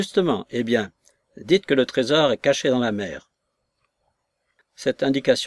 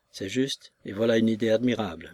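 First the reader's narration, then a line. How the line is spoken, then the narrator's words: Doctor murmuring. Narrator (French): murmura le docteur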